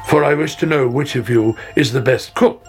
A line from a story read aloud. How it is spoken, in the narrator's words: he said